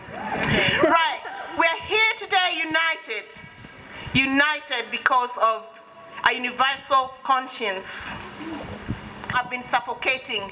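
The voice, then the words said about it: Speaks with a noticeable accent. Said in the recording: “I've got an accent.”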